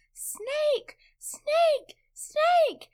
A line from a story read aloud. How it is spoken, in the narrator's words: screaming